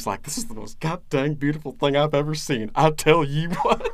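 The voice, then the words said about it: Impression of Hank Hill. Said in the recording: “That impression. ... I've been working on my Hank for a long time.”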